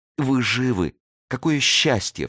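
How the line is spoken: Sobbing. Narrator (Russian): всхлипнула она

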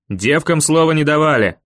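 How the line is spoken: Barked, bearded man. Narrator (Russian): рявкнул бородач

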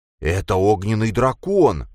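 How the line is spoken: Exclaiming. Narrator (Russian): воскликнул Джейс

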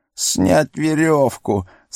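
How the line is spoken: Whimpering. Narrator (Russian): сразу захныкал он

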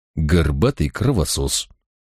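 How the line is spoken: Quiet. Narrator (Russian): тихо добавил

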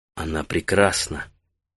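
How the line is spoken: Whispered. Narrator (Russian): прошептал Таита

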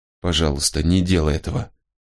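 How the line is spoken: Muttered. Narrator (Russian): бормотала она

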